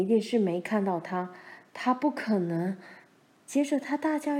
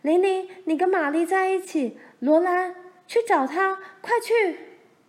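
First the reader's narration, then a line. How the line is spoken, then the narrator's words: Calling out while running. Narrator (Chinese): 妈一面回头叫着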